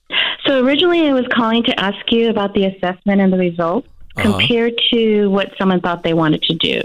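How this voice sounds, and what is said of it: Voice rough from being sick. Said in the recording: “Excuse my voice because, like you, I've been sick.”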